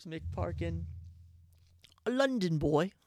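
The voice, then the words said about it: Put-on London accent. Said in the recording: “How's my accent? A London boy.”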